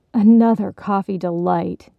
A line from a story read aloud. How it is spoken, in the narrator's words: another voice groaned